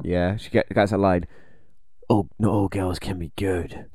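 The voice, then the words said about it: Impression of Brie Larson, Batman-like. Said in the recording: “Are you trying to do an impression of Brie Larson? ... She sounds like Batman.”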